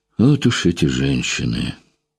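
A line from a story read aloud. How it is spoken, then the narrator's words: Displeased mutter. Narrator (Russian): Пробормотал он недовольно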